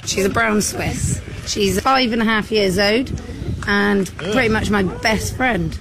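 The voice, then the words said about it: British accent. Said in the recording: “her disgusting British accent ... British”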